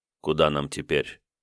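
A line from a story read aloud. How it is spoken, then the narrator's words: Quiet question. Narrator (Russian): тихо спросил Давмонт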